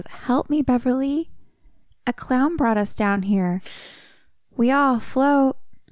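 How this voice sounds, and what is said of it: Little girl voice. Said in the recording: “she hears a little girl voice.”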